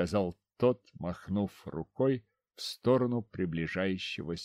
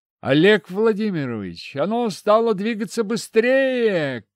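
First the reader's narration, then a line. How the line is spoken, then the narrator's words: Shout. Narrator (Russian): крикнул стоящий у рубки Геннадий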